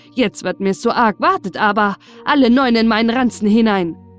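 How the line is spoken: Calling out. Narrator (German): rief er

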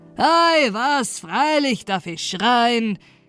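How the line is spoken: Calling out. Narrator (German): rief der Mann

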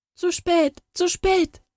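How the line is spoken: Royal child's lament. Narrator (German): jammerte das Königskind

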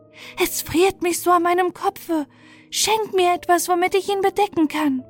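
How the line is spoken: Wailing child. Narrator (German): ein Kind, das jammerte und sprach

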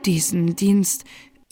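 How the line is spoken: Snake replying, deep sigh. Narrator (German): versetzte die Schlange mit einem tiefen Seufzer

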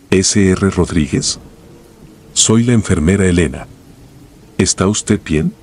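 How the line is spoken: Calm question. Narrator (Spanish): pregunté en un tono calmado

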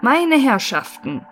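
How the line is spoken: Called out after pause. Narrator (German): rief er nach einer Pause

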